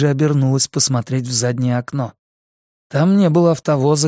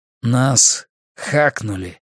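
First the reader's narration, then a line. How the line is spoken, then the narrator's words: Gloomy. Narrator (Russian): мрачно проговорил Марсалис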